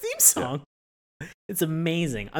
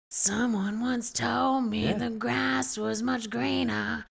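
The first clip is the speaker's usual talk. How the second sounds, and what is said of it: Imitates a singer's voice. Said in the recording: “I'm not doing any justice to my Macy Gray impression”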